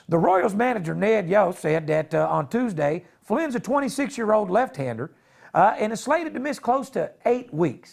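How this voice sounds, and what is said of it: Bad put-on Texas Southern accent. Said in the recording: “You got a terrible Southern accent, bro. ... my Texas accent ... That was the worst. That was the most stoned-up goddamn Texas accent I've ever heard in my life.”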